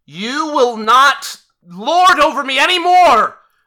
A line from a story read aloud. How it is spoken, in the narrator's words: she yells out